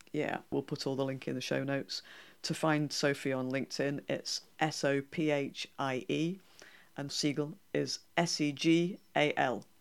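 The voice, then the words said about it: North Yorkshire English accent. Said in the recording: “It's definitely a North Yorkshire accent trying to pronounce a French name.”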